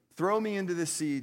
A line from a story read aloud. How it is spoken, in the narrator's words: Jonah said